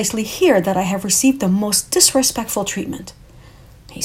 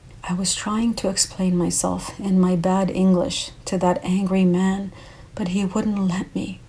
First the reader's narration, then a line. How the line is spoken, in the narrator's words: Alberto whispered